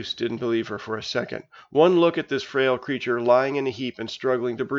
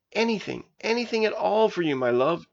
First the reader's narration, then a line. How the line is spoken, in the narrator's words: choked Juice